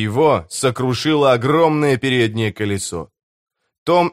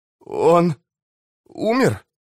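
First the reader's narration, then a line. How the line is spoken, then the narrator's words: Trembling question. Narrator (Russian): спросил Том дрожащим голосом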